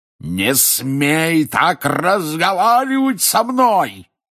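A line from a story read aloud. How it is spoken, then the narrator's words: Furious roar. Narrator (Russian): яростно взревел дядя Вернон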